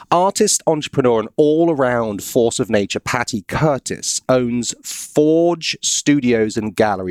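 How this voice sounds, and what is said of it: Southern American accent. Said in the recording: “I live in the South ... That's why you have an accent ... this accent thing”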